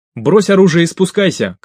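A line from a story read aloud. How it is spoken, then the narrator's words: Shouting. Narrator (Russian): крикнул Андрей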